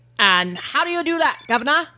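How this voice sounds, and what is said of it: Put-on British accent. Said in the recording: “Can I ask in a British accent this time?”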